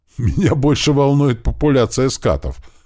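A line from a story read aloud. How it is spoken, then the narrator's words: Chuckling. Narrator (Russian): хохотнул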